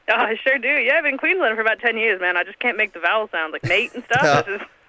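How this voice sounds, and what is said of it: American accent. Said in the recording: “you've got an American accent”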